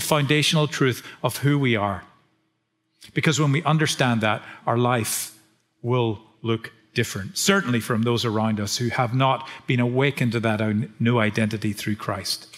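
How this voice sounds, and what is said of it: Northern Irish accent. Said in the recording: “because of my accent ... I'm not from these parts ... Grew up just south of Belfast ... from Northern Ireland”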